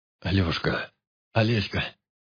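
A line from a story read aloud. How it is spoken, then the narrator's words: Confused muttering. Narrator (Russian): растерянно бормотал человек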